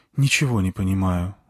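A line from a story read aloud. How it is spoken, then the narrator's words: Sigh. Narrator (Russian): вздохнула она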